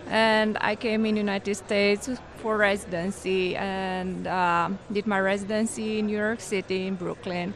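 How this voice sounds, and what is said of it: Romanian accent. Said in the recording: “your accent doesn't sound like Oklahoma City ... I'm originally from Romania”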